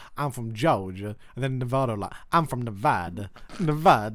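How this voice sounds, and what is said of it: Put-on American Georgia accent. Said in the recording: “They have the same kind of accent, though... Georgians be like”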